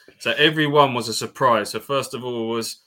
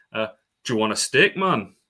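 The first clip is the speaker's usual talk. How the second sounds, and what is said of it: Put-on Geordie accent, fairly good. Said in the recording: “do I attempt to do a Geordie accent here? ... That's pretty good.”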